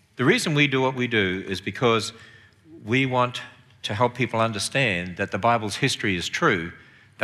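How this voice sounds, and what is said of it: Australian accent. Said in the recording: “I have a southern accent. Very deep southern. I come from Australia originally ... speak like Australians”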